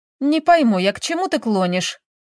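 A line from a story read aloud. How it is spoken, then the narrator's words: Snapping. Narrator (Russian): огрызнулась Таисия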